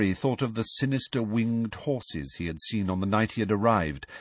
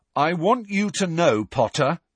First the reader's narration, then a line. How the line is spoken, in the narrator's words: he said in a loud, carrying voice